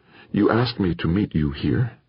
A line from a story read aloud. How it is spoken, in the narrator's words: said, her voice soft and low